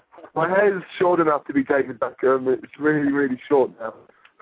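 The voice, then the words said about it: English accent. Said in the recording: “I love the accent. ... I feel like I'm talking to, like, David Beckham with that accent”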